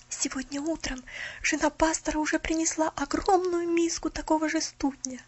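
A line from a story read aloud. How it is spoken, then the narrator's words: Frightened whisper. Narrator (Russian): Милли испуганным шепотом сообщила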